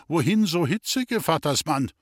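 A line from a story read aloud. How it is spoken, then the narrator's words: Calling out. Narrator (German): rief dem Wirte zu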